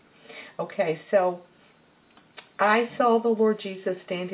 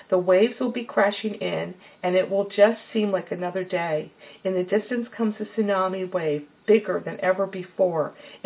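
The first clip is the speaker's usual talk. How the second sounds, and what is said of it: Reading aloud very fast. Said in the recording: “I'm going to try to read this fast, so hopefully you'll understand me.”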